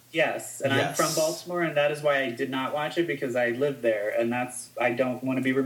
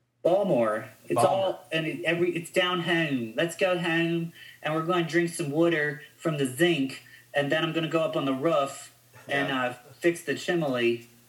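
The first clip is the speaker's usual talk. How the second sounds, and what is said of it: Put-on Baltimore accent. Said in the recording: “The Baltimore accent is really... They pronounce their city Balmer.”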